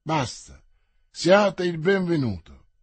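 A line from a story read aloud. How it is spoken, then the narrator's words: Languid tone. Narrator (Italian): continuò in tono languido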